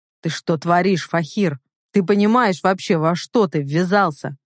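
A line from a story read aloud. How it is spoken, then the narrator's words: Restrained, through gritted teeth. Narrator (Russian): Процедил я, сдерживаясь из последних сил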